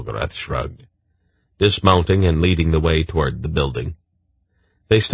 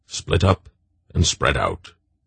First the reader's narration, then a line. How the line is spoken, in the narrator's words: the old man muttered